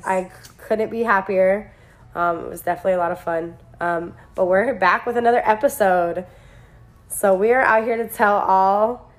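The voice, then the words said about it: Sick, congested-sounding voice. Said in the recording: “As you can hear in my voice, I'm sick again”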